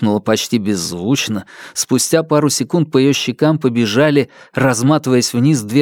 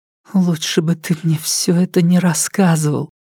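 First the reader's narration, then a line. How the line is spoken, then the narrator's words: Muffled tearful reproach. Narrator (Russian): глухо укорила она, и на глазах ее начали наливаться слезы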